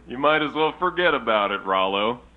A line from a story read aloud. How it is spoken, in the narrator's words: Jimbo laughed